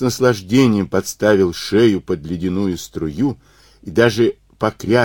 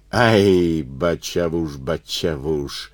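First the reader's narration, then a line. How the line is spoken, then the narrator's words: Sung in disguised voice. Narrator (Russian): запел не своим голосом лазутчик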